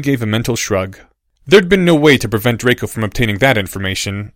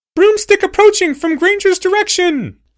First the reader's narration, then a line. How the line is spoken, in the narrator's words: yelled another voice